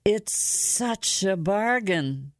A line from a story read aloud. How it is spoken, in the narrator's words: said mournfully